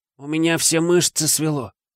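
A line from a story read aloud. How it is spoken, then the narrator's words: Groaning. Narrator (Russian): простонал он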